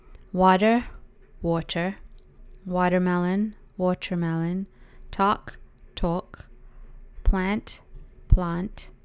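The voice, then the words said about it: Alternating British and Canadian accents. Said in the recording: “I have two accents... I'm going to say a word in both of the accents so that you can hear the difference... British or Canadian... it could sound like I'm doing two accents, but I'm actually not”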